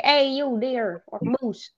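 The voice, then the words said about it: Put-on Canadian accent. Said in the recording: “why would I do a Canadian accent ... if I play a hunting game, then I will be like a Canadian”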